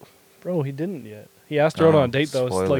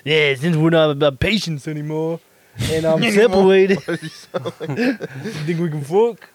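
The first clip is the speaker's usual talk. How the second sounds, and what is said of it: Imitates a TV gangster character's voice. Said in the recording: “Is that how he sounds? ... that's my Tony Soprano impression.”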